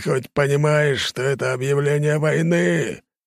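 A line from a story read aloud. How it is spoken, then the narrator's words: Furious roar. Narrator (Russian): взревел Энергиум Золотой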